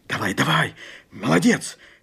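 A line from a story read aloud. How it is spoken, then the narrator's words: Whisper. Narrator (Russian): шепнул Степан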